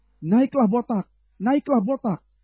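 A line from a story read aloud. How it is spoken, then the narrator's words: Children jeering. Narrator (Indonesian): maka keluarlah anak-anak dari kota itu, lalu mencemoohkan dia serta berseru kepadanya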